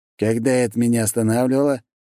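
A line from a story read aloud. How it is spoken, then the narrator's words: Cheerful laughing. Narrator (Russian): весело засмеялся Доброхотов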